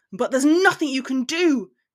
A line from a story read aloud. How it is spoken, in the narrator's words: he shouted so loud it scorched his windpipe